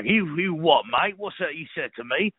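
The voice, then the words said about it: Put-on cockney English accent. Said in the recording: “some sort of bastardized English accent... Sometimes you get a little more cockney with it.”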